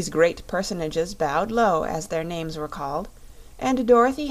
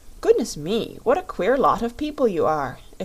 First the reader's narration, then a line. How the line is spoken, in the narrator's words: exclaimed the Rubber Bear